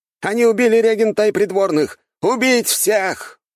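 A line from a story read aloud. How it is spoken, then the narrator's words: Cultivator's shout. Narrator (Russian): выкрикнул один из культиваторов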